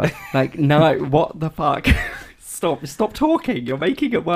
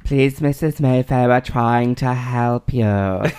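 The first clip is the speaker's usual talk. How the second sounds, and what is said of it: Imitating a nurse's odd accent. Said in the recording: “the nurse with the stupid accent”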